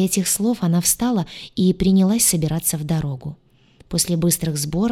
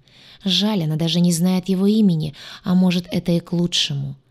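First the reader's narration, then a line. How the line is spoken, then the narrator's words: Sighing. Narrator (Russian): вздохнула она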